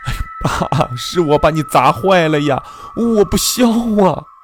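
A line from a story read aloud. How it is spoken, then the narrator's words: Shouting. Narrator (Chinese): 喊道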